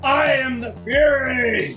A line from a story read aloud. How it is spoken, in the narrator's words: he bellowed